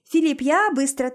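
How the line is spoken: Brisk cheerful chatter. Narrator (Russian): тараторит бодро

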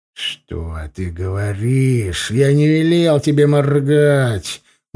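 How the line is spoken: Menacing hiss. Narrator (Russian): угрожающе прошипел я

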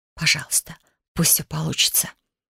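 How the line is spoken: Silent prayerful whisper. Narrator (Russian): мысленно прошептала я, обращаясь ко всем богам сразу и самой силе

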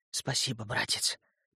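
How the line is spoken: Trembling whisper. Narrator (Russian): прошептал я дрожащим голосом

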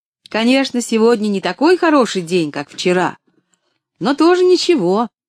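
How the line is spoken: Cheerful shout. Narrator (Russian): весело крикнула она

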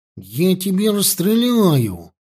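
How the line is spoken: Indignant. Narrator (Russian): сказал Петька возмущенно

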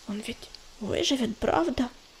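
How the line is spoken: Whispering. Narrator (Russian): прошептал ежевика

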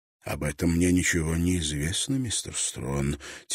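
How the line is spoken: Quiet reply. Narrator (Russian): тихо отозвался отец Себастьян

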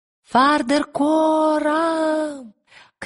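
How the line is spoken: Shouted. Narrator (Russian): крикнула Лира

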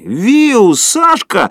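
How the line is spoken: Delighted shout. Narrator (Russian): закричал Поль в восторге

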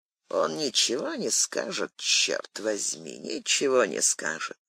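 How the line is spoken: Muttering. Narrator (Russian): пробормотав

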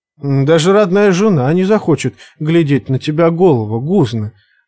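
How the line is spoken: Laughing. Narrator (Russian): засмеялась копьеносица

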